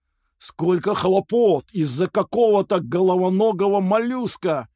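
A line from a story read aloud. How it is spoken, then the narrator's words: Grumbling. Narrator (Russian): пробурчал Мохнатый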